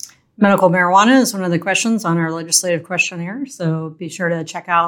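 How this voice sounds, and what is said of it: Usual voice. Nothing is said of it.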